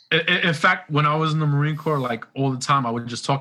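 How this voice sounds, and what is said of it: New York accent. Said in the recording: “I love your accent. I love a New York accent.”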